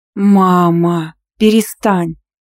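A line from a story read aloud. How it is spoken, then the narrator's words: Drawn-out drawl. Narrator (Russian): протянула я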